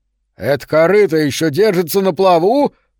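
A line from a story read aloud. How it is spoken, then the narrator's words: Shouted. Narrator (Russian): прокричал Гэри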